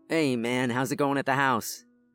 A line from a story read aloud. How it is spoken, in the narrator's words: John asked excitedly